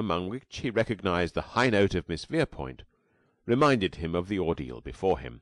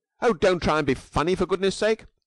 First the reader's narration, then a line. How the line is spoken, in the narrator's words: snapped Miss Verepoint